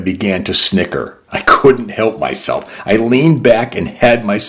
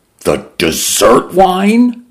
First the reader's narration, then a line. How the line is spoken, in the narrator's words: Mendoza cried